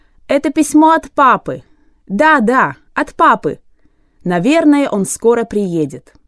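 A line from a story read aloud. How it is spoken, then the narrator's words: Boys shouting. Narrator (Russian): И мальчики закричали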